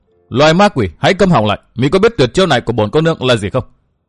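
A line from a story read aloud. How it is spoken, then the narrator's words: Harsh shout, young woman. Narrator (Vietnamese): Cô nương bịt mặt gần giọng quát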